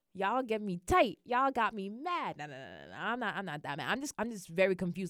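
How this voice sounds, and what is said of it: Regional accent coming through. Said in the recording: “now my accent's coming out”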